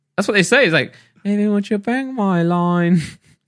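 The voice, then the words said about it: Exaggerated bad English accent. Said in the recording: “You put on a bad English accent? ... exaggerating a little bit.”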